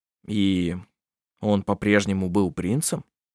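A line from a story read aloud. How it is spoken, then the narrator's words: Very dry tone. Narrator (Russian): Эти слова прозвучали очень сухо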